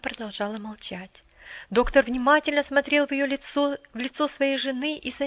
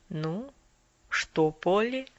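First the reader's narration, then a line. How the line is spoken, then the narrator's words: Soft, quiet words. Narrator (Russian): доктор тихонько произнес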